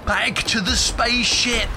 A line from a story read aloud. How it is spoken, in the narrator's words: Juniper shrieked